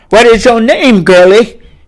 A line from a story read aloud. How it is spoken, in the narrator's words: he boomed